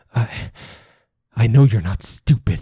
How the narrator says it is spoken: he stutters

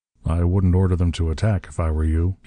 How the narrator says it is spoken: he said coldly

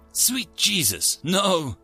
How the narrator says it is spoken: I exclaimed before I could stop myself

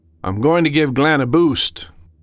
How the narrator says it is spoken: Sam called out

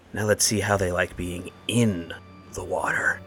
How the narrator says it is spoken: Finn whisper

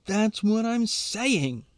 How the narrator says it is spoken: he shouts

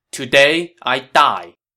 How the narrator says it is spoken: Chen Gong answered loudly

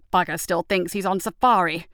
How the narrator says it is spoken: Clifford growled

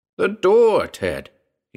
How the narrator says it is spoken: shouted

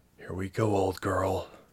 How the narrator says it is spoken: she whispered

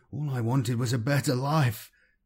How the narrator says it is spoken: he sobbed, chest heaving with barely controlled misery

